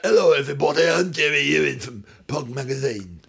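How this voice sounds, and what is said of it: Imitates another person's voice. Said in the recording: “Jerry Ewing's that... I can't do it. It hurts my throat still.”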